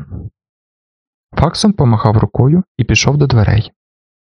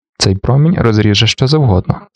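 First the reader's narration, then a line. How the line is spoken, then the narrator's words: Calm remark. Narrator (Ukrainian): спокійно зауважив він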